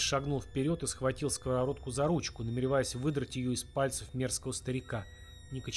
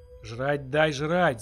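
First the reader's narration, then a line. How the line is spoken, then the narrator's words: Old man's unnaturally loud yell. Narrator (Russian): завопил дед неестественно громко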